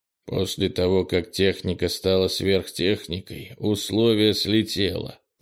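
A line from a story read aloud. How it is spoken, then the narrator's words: Muttered. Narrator (Russian): пробормотал Крис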